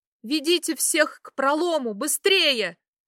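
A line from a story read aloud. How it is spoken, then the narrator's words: Pained choking shout. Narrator (Russian): я, стараясь не задохнуться от сдавившей горло боли, крикнула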